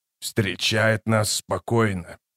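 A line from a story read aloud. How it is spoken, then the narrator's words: Muttered. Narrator (Russian): пробормотал Канник Тол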